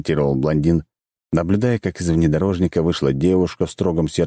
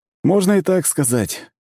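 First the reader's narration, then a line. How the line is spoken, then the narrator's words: Sad wry smile. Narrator (Russian): грустно усмехнулся блондин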